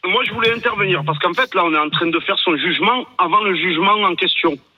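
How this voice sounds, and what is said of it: Slight regional French accent. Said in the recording (French): “avec ce petit accent”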